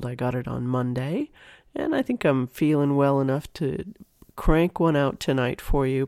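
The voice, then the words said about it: Voice affected by a cold. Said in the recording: “You might be able to hear it in my voice a little bit, but I've been getting over a cold.”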